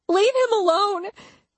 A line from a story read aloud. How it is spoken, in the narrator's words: I cried